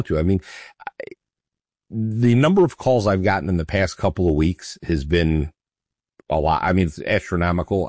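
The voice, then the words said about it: Scratchy, hoarse voice. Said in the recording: “my voice may be a little scratchy today, folks ... I'm not my normal self”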